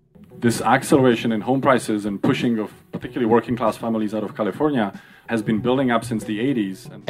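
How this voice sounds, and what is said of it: Foreign accent. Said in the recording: “why is this guy with a funny accent here?”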